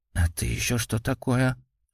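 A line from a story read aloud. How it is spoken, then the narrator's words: Muttered close to ear. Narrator (Russian): пробормотал кто-то рядом с Жениным ухом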